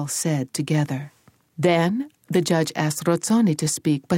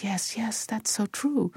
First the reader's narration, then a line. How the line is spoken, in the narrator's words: The Rozzonis murmured